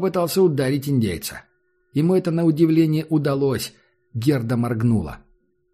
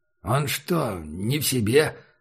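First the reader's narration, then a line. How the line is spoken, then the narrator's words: Muttered. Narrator (Russian): пробормотал шериф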